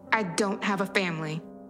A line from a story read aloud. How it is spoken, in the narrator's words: I snapped